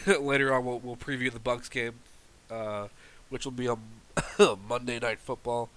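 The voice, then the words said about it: Congested, stuffed-up voice. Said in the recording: “I sound super stuffed up. I got a cold right now”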